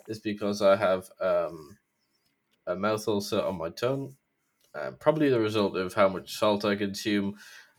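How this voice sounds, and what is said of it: Slightly slurred, off-sounding voice. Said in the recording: “my voice is a bit off, or I sound like I'm slurring, or I sound like I'm doing a very mild impression of Sean Connery”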